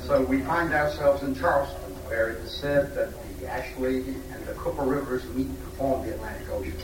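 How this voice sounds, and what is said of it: Speaker's own regional accent. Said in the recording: “Some of our guests have correctly deduced from my accent that I was president of the society when both the topic and the site of this meeting was decided.”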